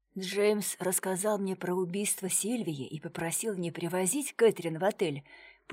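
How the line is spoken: Whispered explanation. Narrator (Russian): пояснил Виллари шепотом, чтобы их не услышала его супруга

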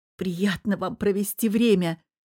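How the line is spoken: Hoarse voice. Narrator (Russian): хрипло произнесла

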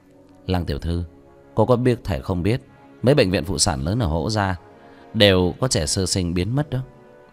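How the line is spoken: Sighing. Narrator (Vietnamese): Vương Quân Diệt thở dài

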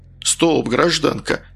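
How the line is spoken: Calm official. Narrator (Russian): спокойно ответил представитель власти

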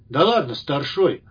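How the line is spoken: Condescending knowing snort. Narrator (Russian): покровительственно хмыкнул рентген, знающий о людях буквально все

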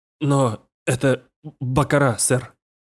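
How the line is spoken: Trembling voice. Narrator (Russian): дрогнувшим голосом отозвался крупье

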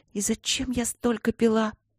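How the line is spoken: Whisper. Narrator (Russian): прошептала она

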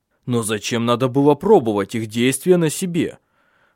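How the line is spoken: Angry question. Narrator (Russian): спросил Тенгель сердито

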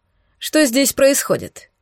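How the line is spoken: Stern question. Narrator (Russian): строго спросила Кассандра командира

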